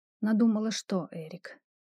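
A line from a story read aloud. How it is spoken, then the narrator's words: Resigned whisper. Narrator (Russian): обреченно прошептала я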